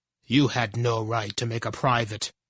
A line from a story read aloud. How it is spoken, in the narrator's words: said stiffly